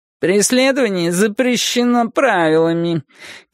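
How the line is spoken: Petulant tinny loudspeaker voice. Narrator (Russian): капризным жестяным голосом сообщил динамик

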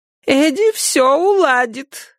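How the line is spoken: Thin whiny voice. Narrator (Russian): отозвалась Либби тоненьким капризным голоском, и это на нее уж совсем было не похоже

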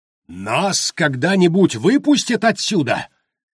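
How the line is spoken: Shrill yell. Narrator (Russian): пронзительно завопил Харпер Болдуин

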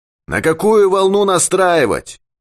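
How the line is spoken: Shout. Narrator (Russian): крикнул Юрковский

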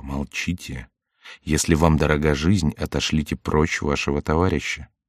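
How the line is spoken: Whisper in ear. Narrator (Russian): он шепнул ему на ухо

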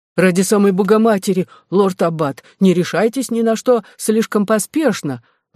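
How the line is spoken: Exclaimed. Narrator (Russian): воскликнул отец Николас

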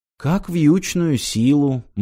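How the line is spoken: Gloomy reply. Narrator (Russian): мрачно ответила Ирина

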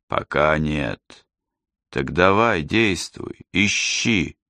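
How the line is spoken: Relieved sigh. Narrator (Russian): Джейсон облегченно вздохнул

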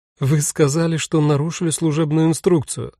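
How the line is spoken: Recalling after laughter. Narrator (Russian): отсмеявшись, вспомнила Ингрида

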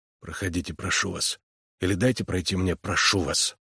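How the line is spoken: Hoarse whisper. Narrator (Russian): Хриплым шепотом Харлан произнес

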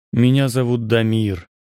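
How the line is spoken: Gloomy statement. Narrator (Russian): сказал я мрачно

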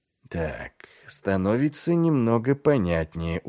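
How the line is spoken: Tired drawl. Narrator (Russian): устало протянул Ваймс

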